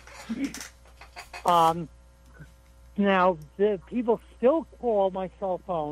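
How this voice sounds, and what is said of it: Usual voice. Nothing is said of it.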